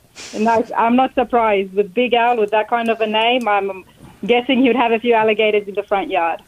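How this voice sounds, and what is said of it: Australian accent. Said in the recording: “She's from Australia ... Beautiful accent.”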